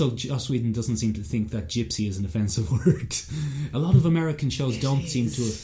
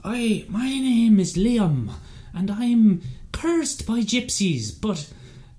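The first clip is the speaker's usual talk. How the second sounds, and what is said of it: Put-on old-timey Irish accent. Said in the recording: “he's doing an old-timey Irish accent ... it's very hard to do it”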